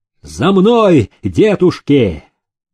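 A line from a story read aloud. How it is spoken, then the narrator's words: Shouting. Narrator (Russian): закричал им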